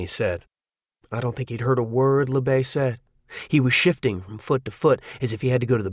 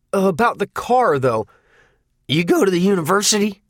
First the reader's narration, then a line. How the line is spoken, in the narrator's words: LeBay barked suddenly